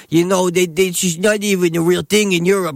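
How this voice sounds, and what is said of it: Imitates another person's voice. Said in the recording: “It's not even a good impression of her.”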